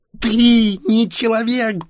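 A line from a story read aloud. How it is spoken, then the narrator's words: Near shriek. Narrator (Russian): почти завизжала Ксения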